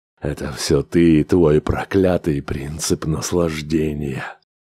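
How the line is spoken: Tired. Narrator (Russian): устало проговорил Грегор

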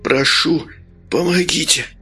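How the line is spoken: Weak, exhausted moan. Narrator (Russian): простонал, вложив в этот стон остаток сил

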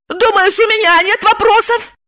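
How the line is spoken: Shouting woman. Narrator (Russian): закричала она

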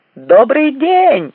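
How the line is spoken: Shouted out. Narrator (Russian): выкрикнул Флетч

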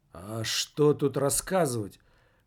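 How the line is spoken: Dejected mumble. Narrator (Russian): подавленно пробормотал Немаркетинг

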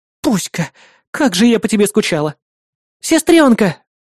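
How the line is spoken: Joyful exclamation. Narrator (Russian): обрадованно воскликнула Лия

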